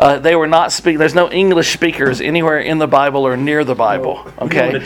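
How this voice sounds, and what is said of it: Usual voice. Nothing is said of it.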